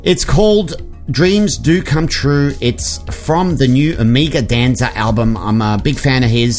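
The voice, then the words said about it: Speaks with a noticeable accent. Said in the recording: “I like the way you say it, too, with your accent, because I feel like I would pronounce this very differently.”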